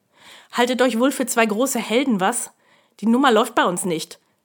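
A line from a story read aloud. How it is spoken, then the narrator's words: Barking. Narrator (German): bellte er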